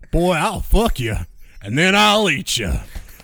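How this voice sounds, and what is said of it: Put-on Southern accent. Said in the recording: “I hope you enjoyed the Southern accent that I'm going to slip into the entire time”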